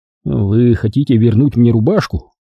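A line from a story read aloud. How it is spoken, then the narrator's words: Grumbling. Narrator (Russian): проворчал я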